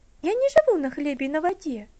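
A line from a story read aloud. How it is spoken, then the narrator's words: Mildly indignant. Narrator (Russian): слегка возмущенно ответила Элси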